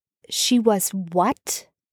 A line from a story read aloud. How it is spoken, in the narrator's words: Chris said